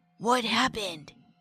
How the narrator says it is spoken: Rob also asked in a whisper

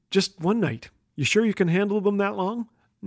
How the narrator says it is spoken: I whispered

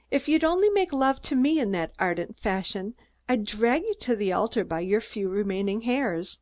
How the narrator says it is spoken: laughed Mary

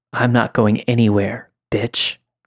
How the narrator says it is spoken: he said

